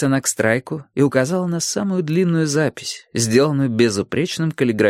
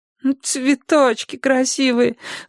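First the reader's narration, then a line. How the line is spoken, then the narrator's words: Whimpering. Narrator (Russian): захныкала Орландо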